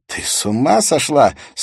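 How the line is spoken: Laughing. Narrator (Russian): смеялся Урия

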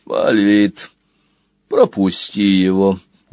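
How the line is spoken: Tired command. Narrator (Russian): устало велел Клотогорб

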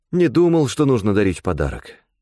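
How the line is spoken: Resigned sigh. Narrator (Russian): обреченно вздохнул он

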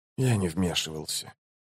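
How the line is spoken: Quiet. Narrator (Russian): тихо проговорил престол тени

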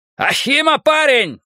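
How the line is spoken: Shout. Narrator (Russian): крикнул кибериец

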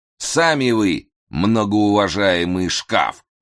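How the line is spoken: Loud displeased grumble. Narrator (Russian): довольно громко пробурчал Разумовский, очевидно, тоже недовольный ролью

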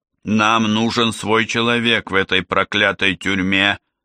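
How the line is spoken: Through gritted teeth. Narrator (Russian): сквозь зубы процедил Тедди

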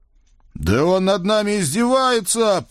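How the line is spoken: Righteous roar. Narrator (Russian): праведно взревел я

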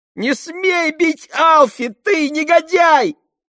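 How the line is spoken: Shrieked. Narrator (Russian): Взвизгнула Фиби

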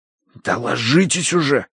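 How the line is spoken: Hissed. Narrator (Russian): прошипел я

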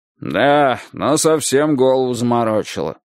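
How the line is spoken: Grumbled. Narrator (Russian): проворчал Файтончик

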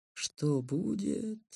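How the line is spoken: Contented purr. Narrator (Russian): довольно мурлыкнул котенок

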